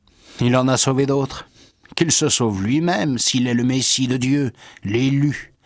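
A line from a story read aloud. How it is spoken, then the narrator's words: Chief sneering. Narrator (French): chef, il ricanait en disant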